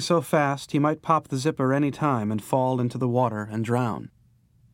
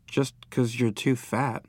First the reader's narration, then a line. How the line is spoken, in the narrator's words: Maybelle muttered